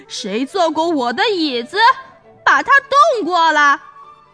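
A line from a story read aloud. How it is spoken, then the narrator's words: Terrifying bellow, father bear. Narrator (Chinese): 熊爸爸……用可怕的声音哇哇叫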